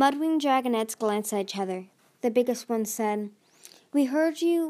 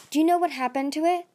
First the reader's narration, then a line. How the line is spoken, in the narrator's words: The smallest Mudwing blurted out